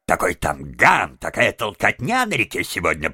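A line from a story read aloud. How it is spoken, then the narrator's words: Grumbling. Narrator (Russian): проворчал мистер Выдра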